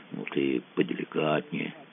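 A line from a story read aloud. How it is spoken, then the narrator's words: Quiet advice. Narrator (Russian): тихонько посоветовал Мазур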